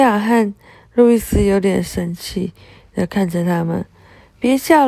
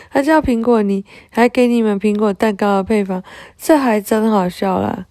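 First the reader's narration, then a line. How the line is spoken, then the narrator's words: Laughing. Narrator (Chinese): 一一笑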